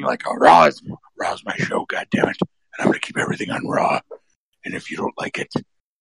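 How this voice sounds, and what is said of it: Imitates another person's voice, terrifying. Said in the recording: “please never do that voice again. That was really terrifying. ... That's the new Vince McMahon voice.”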